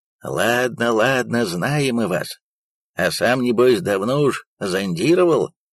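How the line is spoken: Rough unpleasant shout. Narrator (Russian): кричал кто-то грубым и неприятным голосом

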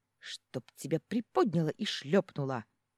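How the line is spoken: Hissing reply. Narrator (Russian): прошипела она в ответ

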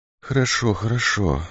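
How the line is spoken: Barely audible, sick woman. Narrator (Russian): ответила едва слышно больная

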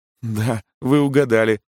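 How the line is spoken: Laughing answer. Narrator (Russian): ответила она, смеясь

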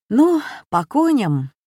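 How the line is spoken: Cheerful, to herself. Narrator (Russian): бодро сказала себе Катя

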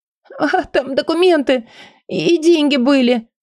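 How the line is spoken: Childlike whimpering. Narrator (Russian): захныкала как ребенок

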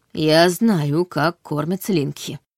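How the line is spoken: Muttered. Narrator (Russian): буркнула я

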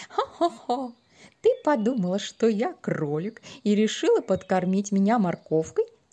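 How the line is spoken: Speaking through laughter. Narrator (Russian): сквозь смех говорил Гир-Лили

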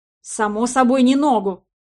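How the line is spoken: Irritated snap. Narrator (Russian): раздраженно огрызнулся мужчина

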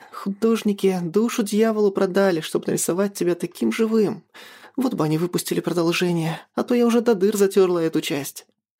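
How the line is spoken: Heavy sigh then speaking. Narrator (Russian): Тяжело вздохнув, Маша сказала

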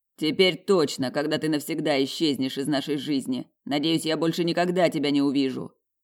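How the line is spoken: Growled. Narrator (Russian): прорычал мужчина

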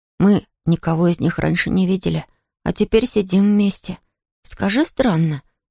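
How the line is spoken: Child's whisper. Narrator (Russian): шепнул малыш Щепкину

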